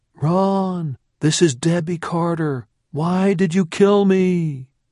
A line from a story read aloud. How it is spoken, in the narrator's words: His tormented screams would go on and on